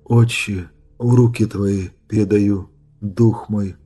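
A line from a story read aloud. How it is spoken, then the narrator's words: Quiet. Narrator (Russian): тихо произнес рыцарь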